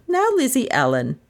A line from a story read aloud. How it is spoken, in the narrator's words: she said sharply